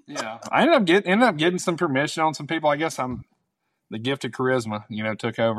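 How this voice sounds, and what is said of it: Southern American accent. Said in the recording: “they all sound like you ... We're not used to hearing a Southern accent at all”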